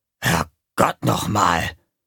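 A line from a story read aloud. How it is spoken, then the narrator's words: Muttering. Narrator (German): Im Zelt der Clowns setzte sich Gonko auf und murmelte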